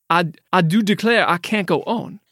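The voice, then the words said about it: Exaggerated cartoonish Southern accent. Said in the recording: “I think that's the chicken from Looney Tunes. I'm not sure that's a Louisiana accent. ... A rooster? ... We need to work on us. Okay. Our southern accents.”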